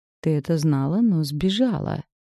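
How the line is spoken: Hoarse drawl. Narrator (Russian): Протянул хрипло

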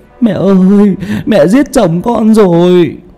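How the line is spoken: Shrieking, sobbing wail. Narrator (Vietnamese): Mợ ré lên khóc nức nở, gào ầm lên

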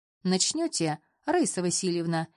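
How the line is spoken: Cheerful question. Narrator (Russian): интересуется он весело

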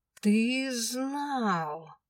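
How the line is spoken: Accusing, through teeth. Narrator (Russian): обвинительно процедила я

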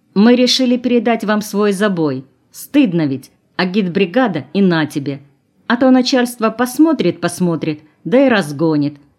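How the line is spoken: Loud, for everyone. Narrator (Russian): сказала Татьяна громко, чтобы слышали все

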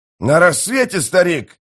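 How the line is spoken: Warrior shouting. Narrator (Russian): прокричал один из воинов

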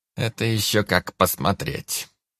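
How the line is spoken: Unclear grumble. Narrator (Russian): непонятно проворчал Анджей

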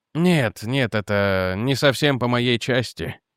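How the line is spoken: Sad. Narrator (Russian): печально сказал Реджи

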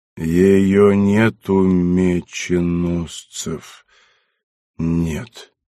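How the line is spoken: Sleepy voice. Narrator (Russian): сонным голосом отвечал Юранд

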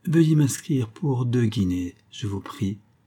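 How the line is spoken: Plain. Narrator (French): répondit Miss Lillerton

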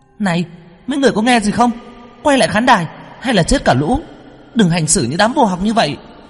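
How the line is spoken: Angry shout. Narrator (Vietnamese): Quyên tức tối hét lên

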